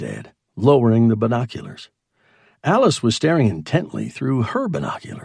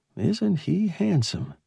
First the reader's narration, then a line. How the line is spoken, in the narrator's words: breathed